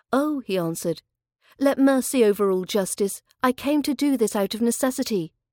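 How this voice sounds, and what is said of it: British accent. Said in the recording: “For more British accent training”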